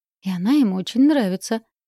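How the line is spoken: Cheerful giggle. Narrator (Russian): весело хихикнула Искрелла

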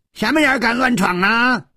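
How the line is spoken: Roar. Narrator (Chinese): 吼声

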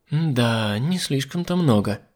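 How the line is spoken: Muttered. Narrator (Russian): пробормотала Мила

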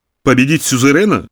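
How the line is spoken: Growling laugh. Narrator (Russian): рыкнул смехом Замойский

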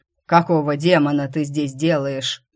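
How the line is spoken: Barked from horseback. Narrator (Russian): рявкнул прямо из седла вожак

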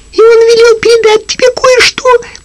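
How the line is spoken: Squeaky voice. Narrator (Russian): пропищал Пинг-Понг

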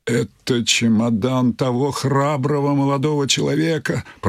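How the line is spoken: Moaning. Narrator (Russian): простонал он

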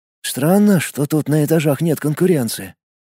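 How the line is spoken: Whispered. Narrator (Russian): прошептал Влад

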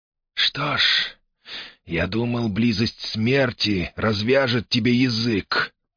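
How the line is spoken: Hissing. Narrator (Russian): прошипел Альмири

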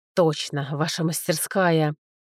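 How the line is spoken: Angry, through teeth. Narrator (Russian): Зло процедил Брега

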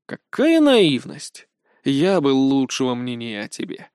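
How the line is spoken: Sigh. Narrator (Russian): вздохнул бывший коллега

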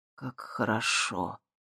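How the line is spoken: Breathy exhale. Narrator (Russian): выдохнул Дэн

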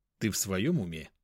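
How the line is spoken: Calm. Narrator (Russian): спокойно сказал я

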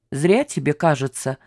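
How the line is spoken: Plain. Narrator (Russian): сказал Родионов

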